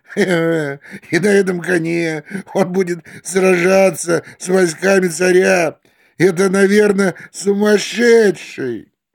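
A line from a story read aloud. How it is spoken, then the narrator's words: Laughing to each other. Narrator (Russian): Они стали смеяться и говорить один другому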